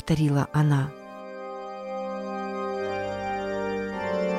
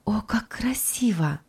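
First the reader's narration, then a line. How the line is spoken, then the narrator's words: Whispered. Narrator (Russian): прошептала она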